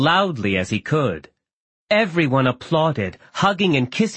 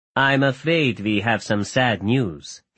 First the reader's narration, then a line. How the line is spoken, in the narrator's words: he said